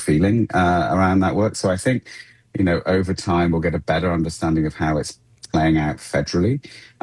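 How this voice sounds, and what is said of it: British accent. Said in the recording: “my accent ... where my accent's from ... back in the UK from where I once worked”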